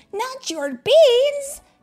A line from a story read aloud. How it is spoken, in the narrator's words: cried Skipito, outraged